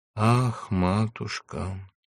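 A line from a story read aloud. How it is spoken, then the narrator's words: Quiet half-spoken singing. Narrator (Russian): Негромко, как будто не пела, а разговаривала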